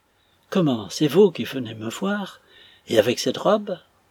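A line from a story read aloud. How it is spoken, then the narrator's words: Breathless exclamation. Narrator (French): Lorsqu'Arthur put parler, il s'écria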